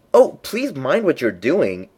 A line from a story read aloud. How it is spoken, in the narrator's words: cried Alex in agony of terror